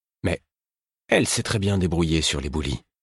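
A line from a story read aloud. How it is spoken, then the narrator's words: Calm. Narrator (French): fit Kétriken, d'un ton calme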